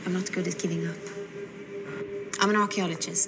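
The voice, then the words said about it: Put-on British accent, non-native. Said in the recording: “British accent ... It sounds like someone who's not from Britain, who's been educated in Britain and is like not British ... you can hear it ... You can hear someone doing it”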